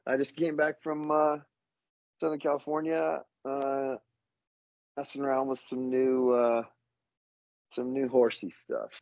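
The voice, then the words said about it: Ragged, rough-sounding voice. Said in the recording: “my voice is a little raggedy”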